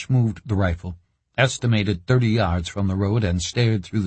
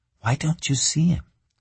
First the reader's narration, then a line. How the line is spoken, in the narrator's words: whispered in Cash's ear